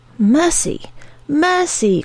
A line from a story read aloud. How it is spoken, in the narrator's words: cried